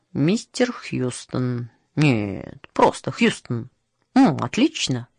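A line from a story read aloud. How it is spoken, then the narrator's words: Muttering to himself. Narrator (Russian): он бормотал себе под нос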